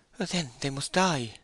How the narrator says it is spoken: she said in a resigned tone

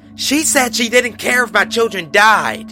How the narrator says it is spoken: blurted out

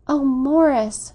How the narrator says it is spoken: she cried, with a long, tender murmur

